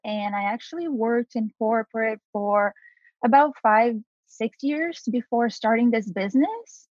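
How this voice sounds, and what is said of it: Brazilian accent. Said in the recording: “I am from Brazil originally, if you notice my accent”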